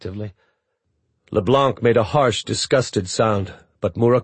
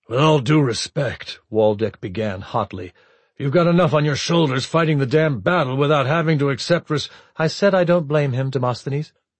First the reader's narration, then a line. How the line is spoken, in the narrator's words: Murakuma said flatly